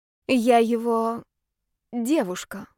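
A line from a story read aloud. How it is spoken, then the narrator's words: Forced out, strained. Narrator (Russian): выдавил Ярослав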